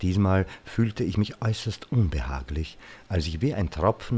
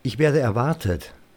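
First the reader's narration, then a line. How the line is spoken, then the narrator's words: Firm voice. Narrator (German): sagte mit fester Stimme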